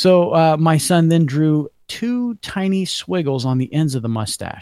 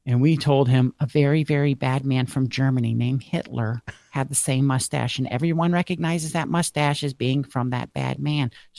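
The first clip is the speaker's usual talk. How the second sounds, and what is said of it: Poor imitation of another person's voice. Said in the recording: “Sorry, Claire, for such a poor impersonation of your voice.”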